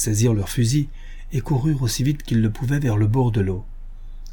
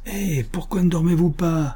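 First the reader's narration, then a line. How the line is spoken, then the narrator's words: Cheerful shout. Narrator (French): leur cria Joe Bevins, d'un ton de bonne humeur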